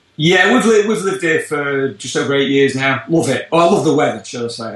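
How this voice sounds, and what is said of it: British English accent. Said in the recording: “we can tell from my accent I come from a little bit further away over the pond from the UK originally”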